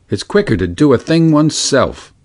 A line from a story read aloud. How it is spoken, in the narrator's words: he grumbled